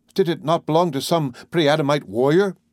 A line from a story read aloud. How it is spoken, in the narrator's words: cried